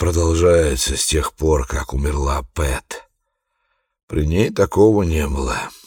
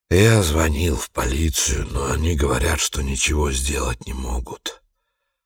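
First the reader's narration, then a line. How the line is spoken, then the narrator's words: Weary. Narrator (Russian): устало сказал Харун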